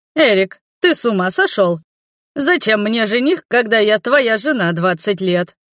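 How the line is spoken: Burst out laughing. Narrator (Russian): расхохоталась Рада

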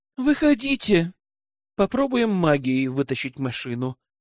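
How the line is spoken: Calm. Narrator (Russian): ответила спокойно Солли

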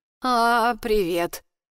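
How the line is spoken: Creaky voice. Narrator (Russian): произношу скрипучим голосом

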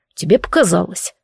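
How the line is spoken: Gruff mutter. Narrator (Russian): буркнул Дарк

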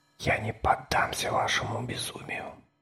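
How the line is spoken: Whisper. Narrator (Russian): прошептал я

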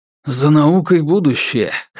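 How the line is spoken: Hoarse objection. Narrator (Russian): хрипло возразил отец

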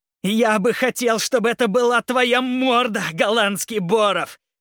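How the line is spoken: Shout. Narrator (Russian): кричал он

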